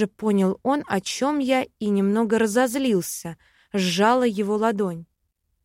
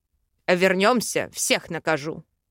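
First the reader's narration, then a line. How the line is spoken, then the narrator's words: Elf growling. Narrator (Russian): рыкнул эльф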